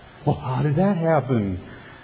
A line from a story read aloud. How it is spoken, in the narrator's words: gasped her mother